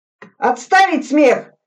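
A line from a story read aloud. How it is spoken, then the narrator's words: Shout. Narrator (Russian): крикнул Суслин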